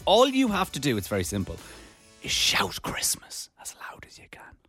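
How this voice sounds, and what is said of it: Whispering. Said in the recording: “Don't know why I'm whispering.”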